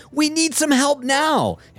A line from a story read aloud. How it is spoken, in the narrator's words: a client at hand yelling